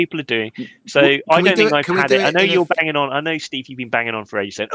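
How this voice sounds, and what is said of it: Usual voice. Nothing is said of it.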